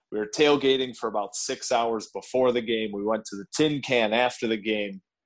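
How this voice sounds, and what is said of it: Hoarse, worn-out voice. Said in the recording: “you can probably hear my voice is still a little bit shot”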